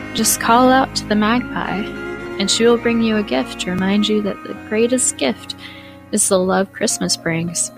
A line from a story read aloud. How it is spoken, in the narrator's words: she said in a weak but sweet tone